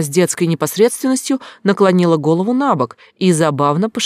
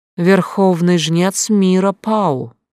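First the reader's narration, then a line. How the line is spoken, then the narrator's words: Calm. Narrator (Russian): произнесла также спокойно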